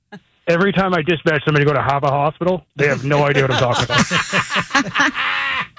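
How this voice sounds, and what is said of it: Boston accent. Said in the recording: “I'm from Boston ... You haven't lost the accent ... you haven't lost it yet”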